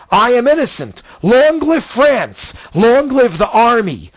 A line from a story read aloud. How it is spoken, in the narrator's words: he shouted for all to hear